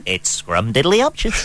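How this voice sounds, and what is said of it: Cartoon character voice impression. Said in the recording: “Ned Flanders, just think Ned... impersonating Homer Simpson”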